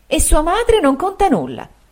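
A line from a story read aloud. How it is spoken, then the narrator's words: Exclamation. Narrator (Italian): esclamò la signora Markleham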